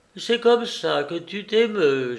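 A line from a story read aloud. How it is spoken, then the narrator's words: Moaning. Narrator (French): gémit-elle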